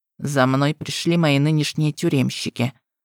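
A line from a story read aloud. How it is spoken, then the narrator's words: Grim, smiling. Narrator (Russian): мрачно улыбнулся Локи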